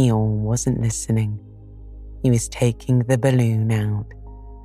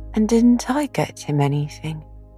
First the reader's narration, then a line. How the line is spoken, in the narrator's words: asked Christopher Robin sadly